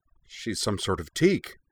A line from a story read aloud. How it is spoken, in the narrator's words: one of the bouncers blurted out